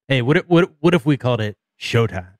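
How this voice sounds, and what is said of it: Imitating another man's voice. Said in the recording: “That's my impression of him.”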